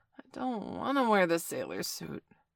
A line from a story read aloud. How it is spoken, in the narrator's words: Bailey groaned, his eyes still shut